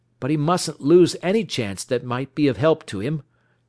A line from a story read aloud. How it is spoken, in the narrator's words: Judge Scott exclaimed